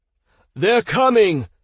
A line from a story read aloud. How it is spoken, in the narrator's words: Hans shouted to the team